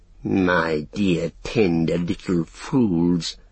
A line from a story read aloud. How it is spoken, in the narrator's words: hissed Grishnak